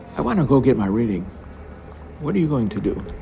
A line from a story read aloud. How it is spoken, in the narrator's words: She quickly added